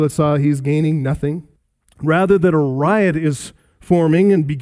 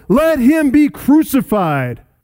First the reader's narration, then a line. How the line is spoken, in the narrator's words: They shouted all the more